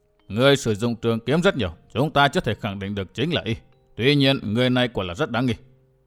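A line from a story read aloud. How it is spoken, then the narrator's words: Stern old man. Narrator (Vietnamese): Lão nhân áo xám nghiêm nghị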